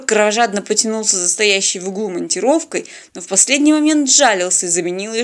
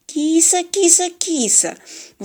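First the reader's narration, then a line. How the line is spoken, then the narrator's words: Coaxing cooing, male. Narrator (Russian): вкрадчиво заворковал он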